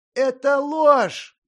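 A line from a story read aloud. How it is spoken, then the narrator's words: Yelling. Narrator (Russian): завопил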